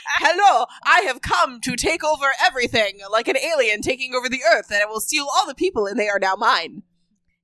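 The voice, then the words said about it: Impression of the co-host. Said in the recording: “that impression that I did of you”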